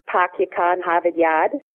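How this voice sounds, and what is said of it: Boston accent dropping R sounds. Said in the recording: “the Boston accent, drop rhotics altogether in certain parts of words”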